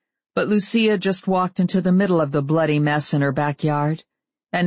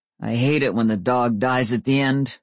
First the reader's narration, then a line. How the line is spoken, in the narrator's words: said Gary, his voice tight